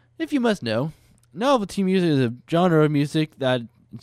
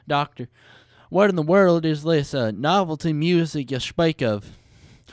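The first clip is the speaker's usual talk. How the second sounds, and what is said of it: Generic Southern accent character. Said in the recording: “generic Southern accent guy”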